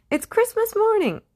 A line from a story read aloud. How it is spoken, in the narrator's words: he cried